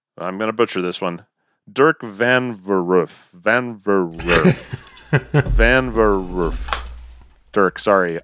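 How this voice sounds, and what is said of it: Halting, sputtering repeated pronunciation. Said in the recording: “I sound like a car with a bad battery trying to start”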